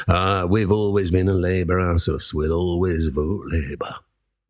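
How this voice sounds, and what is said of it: Mocking put-on regional accent. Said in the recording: “I don't know why I'm doing these accents, ... I'm just doing a bit of ridiculing”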